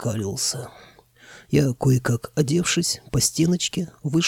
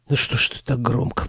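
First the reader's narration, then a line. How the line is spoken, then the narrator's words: Hoarse wheeze. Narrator (Russian): просипел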